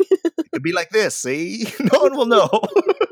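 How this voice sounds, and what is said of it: Old-time movie gangster accent. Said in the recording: “the accents that I was hoping for ... a mobster movie from the 1940s ... tell me a Chicago accent”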